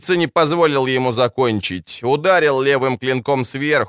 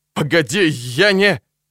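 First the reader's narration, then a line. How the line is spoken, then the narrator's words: Strained. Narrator (Russian): Один из праведных выдавил из себя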